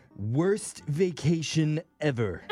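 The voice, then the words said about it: Impression of Simpsons' Comic Book Guy. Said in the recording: “Great impression. ... Guy from The Simpsons. ... comic book guy.”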